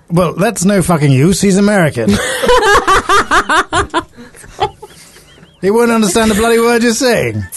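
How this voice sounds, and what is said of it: Scottish accent. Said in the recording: “I detect a Scottish accent”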